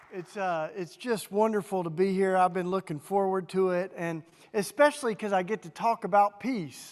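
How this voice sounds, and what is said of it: Southern US accent. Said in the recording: “you can tell from my southern accent, I grew up in Tennessee”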